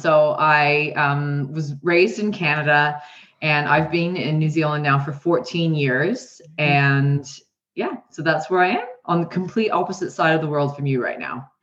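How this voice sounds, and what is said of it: Canadian twang accent. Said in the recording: “she's got a twang. So she's not obviously from New Zealand ... I love the twang.”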